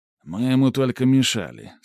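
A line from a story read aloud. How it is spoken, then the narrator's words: Calm old man. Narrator (Russian): спокойно произнес старый служака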